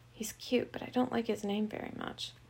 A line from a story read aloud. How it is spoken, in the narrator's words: She whispered to them